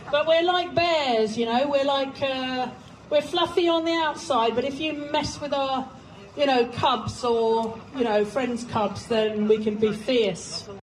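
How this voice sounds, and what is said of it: English with an unusual accent. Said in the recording (Chinese): “很奇特口音的英语”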